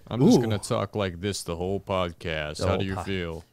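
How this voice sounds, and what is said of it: Put-on deep radio announcer voice. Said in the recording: “That's a good radio voice”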